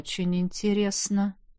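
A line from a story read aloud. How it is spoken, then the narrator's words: Mumbling. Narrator (Russian): пробормотал маг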